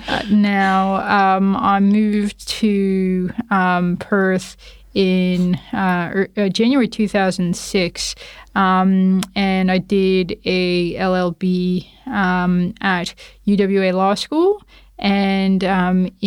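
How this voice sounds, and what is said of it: Canadian accent. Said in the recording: “my accent is Canadian. So I was born and raised in Toronto, Canada.”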